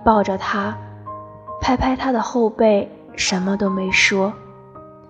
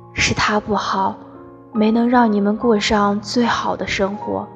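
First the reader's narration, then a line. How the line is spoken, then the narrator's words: Sighing. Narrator (Chinese): 他叹了口气说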